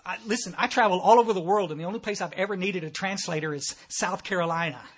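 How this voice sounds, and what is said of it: Thick Texas accent. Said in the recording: “I'm from Texas. Y'all probably noticed that right off because of my thick accent.”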